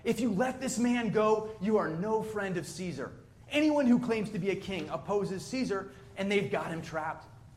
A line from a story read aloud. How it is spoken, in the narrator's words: the Jewish leaders kept shouting